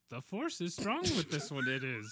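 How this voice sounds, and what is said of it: Yoda character impression. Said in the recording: “doing his best Yoda impression ... That's good. See? That's good.”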